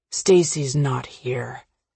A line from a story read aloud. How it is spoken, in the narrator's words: Patrick says softly, interrupting me